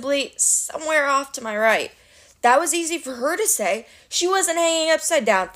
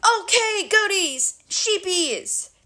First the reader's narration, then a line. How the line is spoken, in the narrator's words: the Cyclops roared